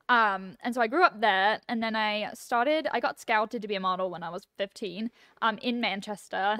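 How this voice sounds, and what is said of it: Non-American accent. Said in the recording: “your lovely accent, you're not an LA native”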